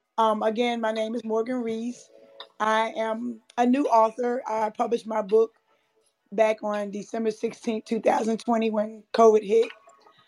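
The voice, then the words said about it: Strained, worn-out voice. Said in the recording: “Excuse my voice again tonight... So I did a lot of celebrating, screaming and howling and singing. So I apologize if my voice is not appropriate this evening.”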